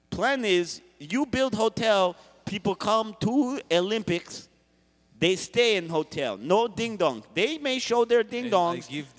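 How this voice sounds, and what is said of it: Unconvincing fake Russian accent. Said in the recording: “What's this accent? Where part of Russia are you from? I start to think maybe you're not from Russia... Sound like you maybe from Chicago.”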